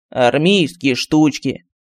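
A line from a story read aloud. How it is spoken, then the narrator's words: Snorting medallion. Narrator (Russian): фыркнул медальон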